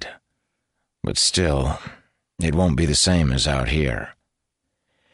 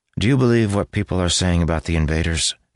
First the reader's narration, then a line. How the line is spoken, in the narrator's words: he asked